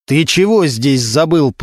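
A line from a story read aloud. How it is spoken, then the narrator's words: Growled. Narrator (Russian): прорычал Регинский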